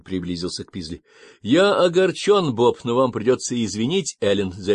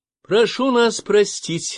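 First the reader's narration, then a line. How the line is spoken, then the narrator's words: Cheerful reply. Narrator (Russian): весело откликнулась она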